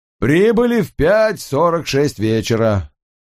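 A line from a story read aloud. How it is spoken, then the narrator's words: Loud. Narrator (Russian): сказал громко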